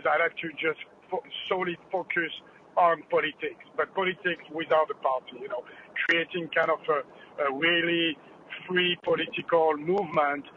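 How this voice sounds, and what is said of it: Thick French accent. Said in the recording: “this thick French accent, as you have noticed”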